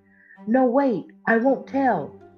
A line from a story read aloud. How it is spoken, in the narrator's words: cried Ariel